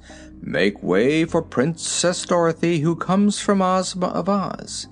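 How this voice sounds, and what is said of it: Pompous character voice. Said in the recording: “in a pompous voice”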